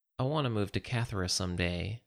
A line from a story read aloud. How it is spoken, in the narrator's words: sighed